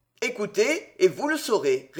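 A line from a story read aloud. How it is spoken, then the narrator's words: Cold. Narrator (French): répondit froidement Robin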